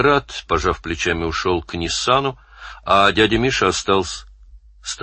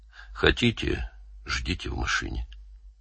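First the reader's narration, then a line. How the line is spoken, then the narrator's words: Quiet. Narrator (Russian): сказал негромко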